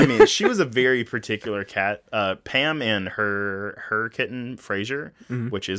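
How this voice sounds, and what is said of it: Usual voice. Nothing is said of it.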